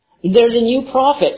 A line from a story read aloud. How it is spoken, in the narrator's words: she exclaimed